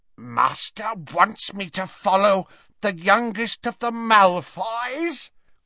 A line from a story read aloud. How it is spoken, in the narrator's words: croaked Creature